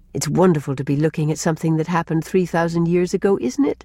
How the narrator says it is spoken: said Rilla

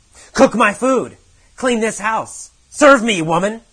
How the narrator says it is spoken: Every day he has yelled at Kathy

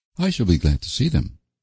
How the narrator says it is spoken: she said flatly

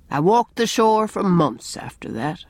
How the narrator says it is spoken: he said sadly

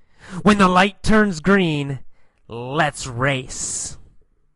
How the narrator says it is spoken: he sneered at Alan, Tom Cruise said

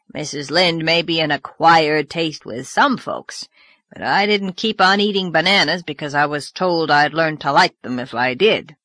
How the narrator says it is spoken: growled Mr

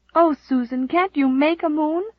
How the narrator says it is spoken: cried Nan despairingly

